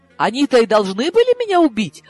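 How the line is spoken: Horrified exclamation. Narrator (Russian): ужасаясь, воскликнула я

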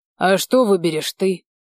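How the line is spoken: Angry, through gritted teeth. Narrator (Russian): процедил сквозь зубы, злясь

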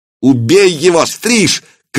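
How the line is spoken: Shout. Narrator (Russian): крикнул Акиба

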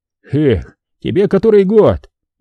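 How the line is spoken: Cheerful mock indignation. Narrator (Russian): Весело возмущается Любард

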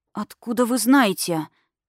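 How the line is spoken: Shocked breathless gasp. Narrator (Russian): потрясенно выдохнула я

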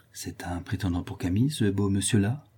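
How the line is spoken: Quiet low voice. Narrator (French): dit-elle tout bas

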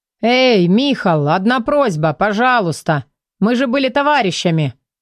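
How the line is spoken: Pleading shout. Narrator (Russian): крикнул он умоляющим тоном

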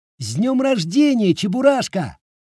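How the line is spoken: Shouting. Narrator (Russian): крикнул Гриша

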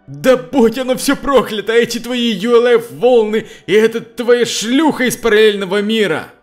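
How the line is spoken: Shouted. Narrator (Russian): Константин крикнул

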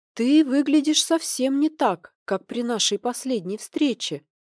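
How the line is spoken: Thoughtful. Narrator (Russian): Задумчиво проговорила

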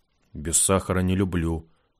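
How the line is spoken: Grumbled. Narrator (Russian): буркнул Рогов

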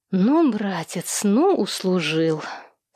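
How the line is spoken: Muttering through teeth. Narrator (Russian): Сквозь зубы пробормотала старшая сестра Владимира Новоявленского

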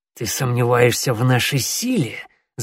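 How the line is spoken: Hissing. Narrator (Russian): зашипел коготь

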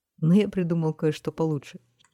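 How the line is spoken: Giggling. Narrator (Russian): хихикнул почтальон

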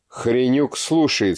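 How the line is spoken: Plain. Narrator (Russian): сказал милиционер

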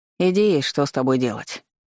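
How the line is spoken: Grumbling mutter. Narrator (Russian): пробурчал он

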